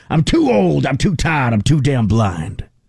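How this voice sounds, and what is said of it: Imitates another person's voice. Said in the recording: “It's very similar to my Al Pacino impression. ... Which is a pretty good one.”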